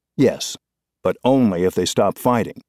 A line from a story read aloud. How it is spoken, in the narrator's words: said Mr